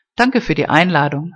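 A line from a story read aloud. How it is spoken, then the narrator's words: Firm voice. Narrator (German): sagte sie mit fester Stimme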